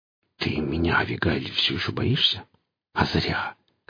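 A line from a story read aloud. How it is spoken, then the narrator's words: Smiling whisper. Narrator (Russian): шептал Гриф, широко улыбался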